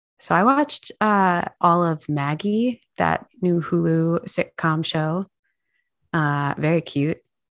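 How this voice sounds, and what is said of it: Sick, congested-sounding voice. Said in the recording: “unless you can hear it from my voice. ... I got COVID”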